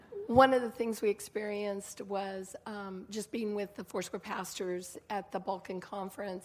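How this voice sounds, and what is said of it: Rough, slightly hoarse voice. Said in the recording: “my voice is a little rough this morning”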